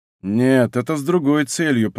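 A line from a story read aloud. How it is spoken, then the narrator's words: Grumble. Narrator (Russian): проворчал Д'Артаньян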